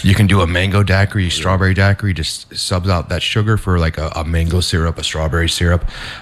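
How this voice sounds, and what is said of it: Smooth deep radio-style voice. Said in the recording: “this radio voice that you got”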